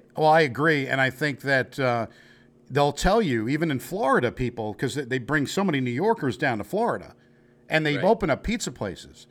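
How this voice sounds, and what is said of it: New York accent. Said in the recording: “my New York accent,”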